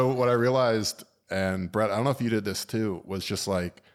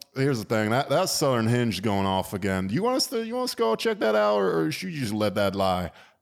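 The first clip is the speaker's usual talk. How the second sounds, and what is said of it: Fake Southern twang accent. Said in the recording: “just put a little southern twang in your voice... a fake southern accent”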